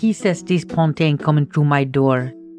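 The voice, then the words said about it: Pathetic approximation of thick Creole accent. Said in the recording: “in her thick Creole accent, of which I will be doing a pathetic approximation”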